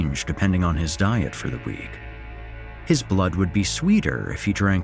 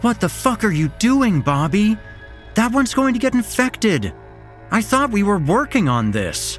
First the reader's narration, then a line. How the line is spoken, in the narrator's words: Sam shouted, her voice sounding more concerned than angry